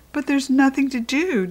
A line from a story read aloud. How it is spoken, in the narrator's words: Deely whined